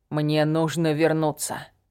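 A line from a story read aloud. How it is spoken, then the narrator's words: Dazed mumble. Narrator (Russian): словно не понимая, пробормотал он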